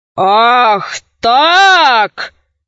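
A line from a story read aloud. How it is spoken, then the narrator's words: Knight roaring. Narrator (Russian): Взревел рыцарь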